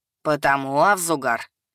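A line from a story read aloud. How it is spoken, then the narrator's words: Sarcastic. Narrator (Russian): Язвительно поведал аудитории и персонально оборотню-мастер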